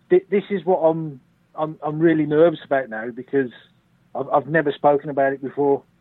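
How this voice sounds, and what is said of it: Brummie Birmingham accent. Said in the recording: “excuse my accent, because yes, I am a Brummie. I am from North Birmingham.”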